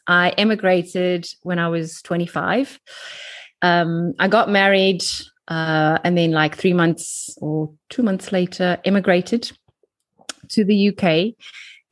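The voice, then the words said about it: South African accent. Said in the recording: “I am from South Africa, from Cape Town. You can probably tell by my accent.”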